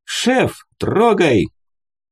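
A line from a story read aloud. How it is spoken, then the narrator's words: Cheerful shout. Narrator (Russian): весело крикнул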